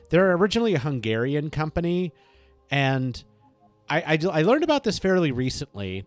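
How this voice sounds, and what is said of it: Slight Russian accent. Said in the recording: “I'm saying it in a bit of a Russian accent, because that's unfortunately what I was born with.”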